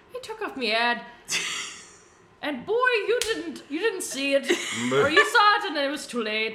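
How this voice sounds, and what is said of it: Put-on accent, poorly done. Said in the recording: “I gave him an accent ... I'm gonna butcher it ... Boyo would have been better, I think.”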